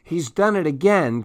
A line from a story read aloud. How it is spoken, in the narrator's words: cried Clementine